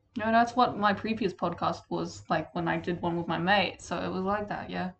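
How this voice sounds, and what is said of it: Slightly British-sounding accent. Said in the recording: “Your accent just changed. Just a bit. ... a bit British.”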